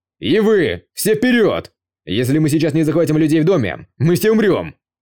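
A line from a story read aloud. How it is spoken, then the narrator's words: Yelling. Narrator (Russian): заорал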